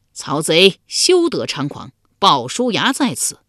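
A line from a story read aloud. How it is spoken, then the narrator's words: Loud battle cry. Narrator (Chinese): 一将，高声叫道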